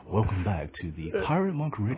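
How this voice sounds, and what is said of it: Smooth, sexy late-night FM radio voice. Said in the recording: “it would sound too much like the Quiet Storm R&B station on at 10 o'clock at night ... FM radio voice? ... I think that sounds too sexy or something.”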